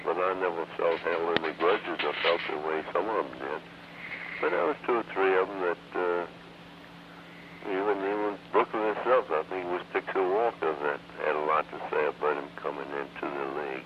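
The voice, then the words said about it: Southern American accent. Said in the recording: “you still have a Southern accent”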